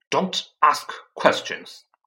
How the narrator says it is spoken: snapped his uncle

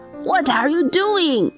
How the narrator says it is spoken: Gessler shouts at him

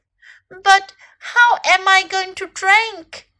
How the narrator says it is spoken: cried Little Elephant

